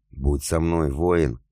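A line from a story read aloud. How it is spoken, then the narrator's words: Hoarse wheeze. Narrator (Russian): хрипела она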